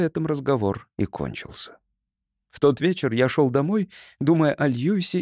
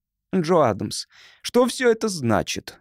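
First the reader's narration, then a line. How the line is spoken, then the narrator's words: Loud question. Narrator (Russian): громко спросила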